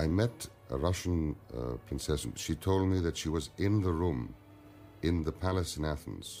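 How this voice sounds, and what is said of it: Usual voice. Nothing is said of it.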